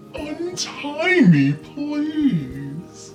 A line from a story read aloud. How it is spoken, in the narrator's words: pleaded